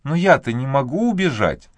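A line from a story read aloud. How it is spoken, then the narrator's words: Sighing. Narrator (Russian): вздохнула Люси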